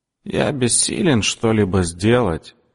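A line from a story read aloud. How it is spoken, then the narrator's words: Creaky voice. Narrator (Russian): говорит своим скрипучим голосом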